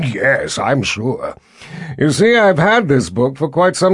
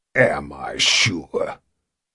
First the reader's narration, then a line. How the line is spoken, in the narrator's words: grunted in derision